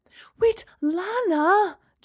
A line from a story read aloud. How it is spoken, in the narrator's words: Gemma cried